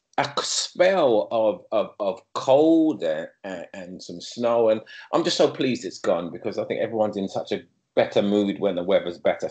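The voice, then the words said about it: London English accent. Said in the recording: “if you haven't already guessed by ... accent. My accent is from London”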